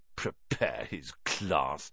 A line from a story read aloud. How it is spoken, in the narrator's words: Ron sneered after him